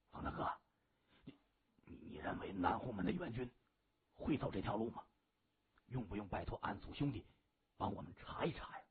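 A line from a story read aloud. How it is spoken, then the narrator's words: Young man's quiet question. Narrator (Chinese): 方天化身旁的一名小弟就低声问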